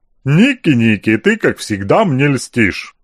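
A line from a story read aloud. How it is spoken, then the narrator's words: Pleased chuckle after pause. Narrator (Russian): довольно хохотнул после короткой паузы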